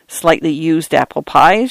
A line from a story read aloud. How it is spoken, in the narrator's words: Schaefer asked